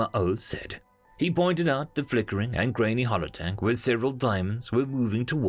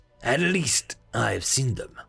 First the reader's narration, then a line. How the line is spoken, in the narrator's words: Smakamao said coldly